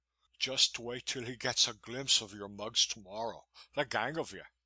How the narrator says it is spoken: he chuckled

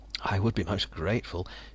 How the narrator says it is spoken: Jonas murmured

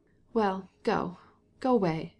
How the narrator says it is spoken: she said in an injured tone

